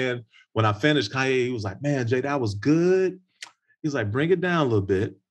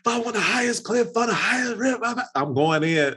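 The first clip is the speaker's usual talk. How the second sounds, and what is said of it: Screaming high-energy rap lines. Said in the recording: “My energy is like through the roof. So I'm screaming”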